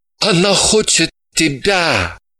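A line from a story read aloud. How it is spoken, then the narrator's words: Groaning reply. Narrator (Russian): назидательно подняв указательный палец, простонал в ответ Ваник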